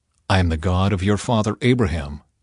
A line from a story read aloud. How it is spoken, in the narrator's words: he said